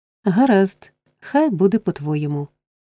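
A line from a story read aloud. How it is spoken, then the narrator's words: Girl's forced laugh. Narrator (Ukrainian): силовано засміялася дівчина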